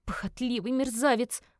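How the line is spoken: Moan. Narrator (Russian): простонала она

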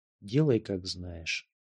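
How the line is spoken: Quiet, unsteady voice. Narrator (Russian): голос был не совсем бодр, тихо сказала

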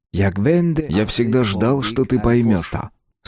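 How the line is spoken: Plain. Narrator (Russian): сказал мужчина

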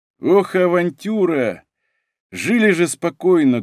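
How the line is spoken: Sorrowful sigh. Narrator (Russian): горестно вздохнул наш бравый гранд-полковник Николаш из рода Гродичей

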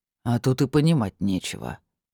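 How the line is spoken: Displeased grumble. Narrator (Russian): недовольно буркнул Богомол

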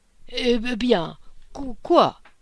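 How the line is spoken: Stammered. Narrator (French): bégaya-t-il

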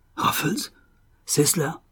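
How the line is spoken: Fierce muttering. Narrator (French): murmura-t-il d'un ton sauvage

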